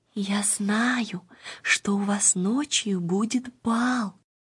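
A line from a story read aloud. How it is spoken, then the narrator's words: Child's whisper. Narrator (Russian): маленькая Ида шепнула им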